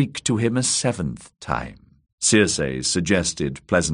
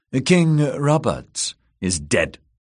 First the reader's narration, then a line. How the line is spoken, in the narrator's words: she said sharply